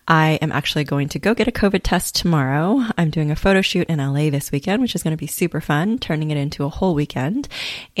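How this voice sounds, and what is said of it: Congested, sick-sounding voice. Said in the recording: “I am still getting over this cold that I caught in the sequoias ... hence the way that my voice sounds over the last few recordings”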